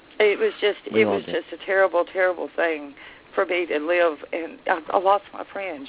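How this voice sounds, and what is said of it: Emotional, choked-up speech. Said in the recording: “I get emotional when I talk about some of this.”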